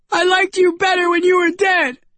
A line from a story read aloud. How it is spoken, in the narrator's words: she shouted at Charlie